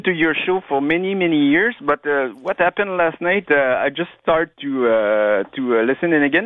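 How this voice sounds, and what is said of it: Quebec French accent. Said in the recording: “my French accent. I'm from Quebec.”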